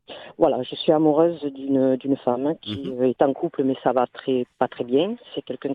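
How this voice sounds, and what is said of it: Southern French accent. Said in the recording (French): “Avec ce petit accent du sud là qui fait plaisir, ensoleillé.”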